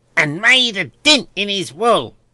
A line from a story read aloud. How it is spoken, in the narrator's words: cried the boy